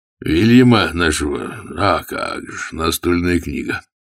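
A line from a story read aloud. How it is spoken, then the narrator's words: Sighing. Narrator (Russian): он вздохнул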